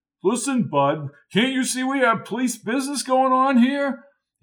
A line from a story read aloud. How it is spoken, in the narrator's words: He shouted into the walkie-talkie